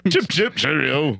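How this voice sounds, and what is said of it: Terrible put-on British accent. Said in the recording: “our terrible British accents ... at least we didn't go like total Cockney”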